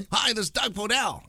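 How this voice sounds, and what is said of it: Impression of radio host Doug Podell. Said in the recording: “You know how he does his voice. ... That's pretty good.”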